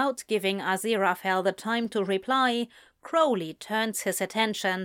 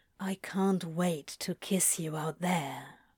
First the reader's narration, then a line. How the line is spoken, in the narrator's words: Crowley murmurs, mouthing over Aziraphale's shoulder